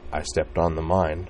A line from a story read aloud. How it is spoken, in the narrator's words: said Corwin softly